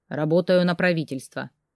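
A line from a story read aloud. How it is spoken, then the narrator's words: Cold reply. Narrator (Russian): холодно ответил Илья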